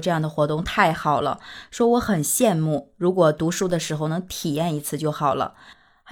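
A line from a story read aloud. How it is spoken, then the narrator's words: Wistful sigh. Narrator (Chinese): 有一个刚从学校毕业的学生就在感叹说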